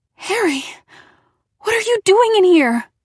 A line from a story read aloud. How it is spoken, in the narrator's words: I cried